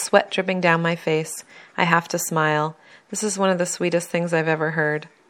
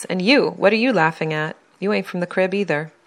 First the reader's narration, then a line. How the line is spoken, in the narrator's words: Dudley snaps